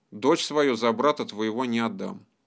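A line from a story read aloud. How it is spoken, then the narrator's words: Calm. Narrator (Russian): сказал уже спокойно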